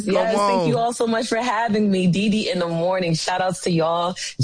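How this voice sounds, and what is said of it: New York / New Jersey accent. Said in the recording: “I love that accent, though. Y'all hear her accent? That's that real New York accent ... That's that Jersey.”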